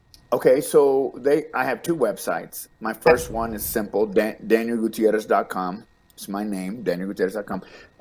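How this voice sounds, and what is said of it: Texas accent. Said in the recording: “I have a little accent. Dallas, it's a Texas accent”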